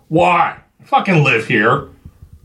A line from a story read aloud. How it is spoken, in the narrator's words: Chuck barked